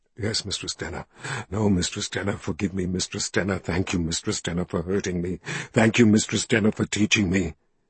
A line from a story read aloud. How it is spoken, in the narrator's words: he mumbled